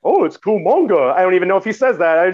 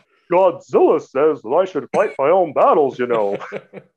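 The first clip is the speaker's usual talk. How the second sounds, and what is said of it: Impression of a film character's voice. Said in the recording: “That was a perfect impression”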